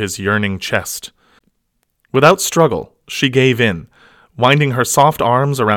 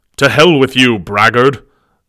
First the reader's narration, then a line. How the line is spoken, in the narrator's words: bellowed the angered Ecordian